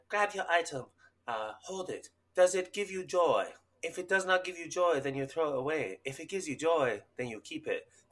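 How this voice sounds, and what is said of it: Imitates another person's voice. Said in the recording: “I'm going to do an imitation. ... there's a stupid show on Netflix where this woman like organizes spaces”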